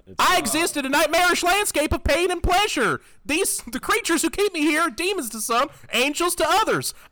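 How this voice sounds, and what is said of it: Inaccurate imitation of another person's voice. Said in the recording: “He sounds absolutely nothing like that. ... My impression of Bob Dole is technically awful”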